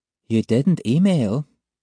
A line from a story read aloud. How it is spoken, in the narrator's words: she says, deceptively calmly